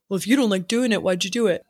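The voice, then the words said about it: Generic man voice. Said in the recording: “Whose voice was that? ... that was just like generic man voice.”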